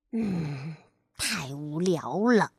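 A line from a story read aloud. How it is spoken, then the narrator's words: Mumbling. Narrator (Chinese): 跳跳的嘴里咕哝着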